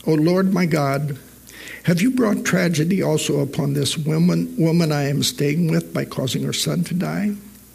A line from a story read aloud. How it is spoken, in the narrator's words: he cried out to the Lord